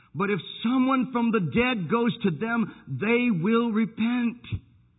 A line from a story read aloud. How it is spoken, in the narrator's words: cried